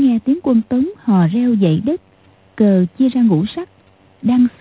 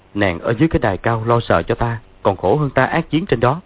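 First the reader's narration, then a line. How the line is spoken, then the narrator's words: Smiling. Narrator (Vietnamese): Dương Quá mỉm cười nói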